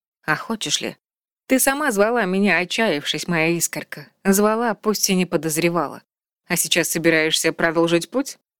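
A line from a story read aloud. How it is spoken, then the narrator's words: Soft laugh, woman. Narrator (Russian): Она тихо рассмеялась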